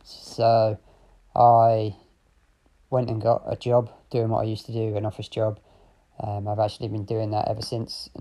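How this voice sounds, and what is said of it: English accent with slight Australian twang. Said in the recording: “accent ... I'm from the UK. My accent is a bit of a mishmash. Got a little bit of a twang, but yeah, English accent,”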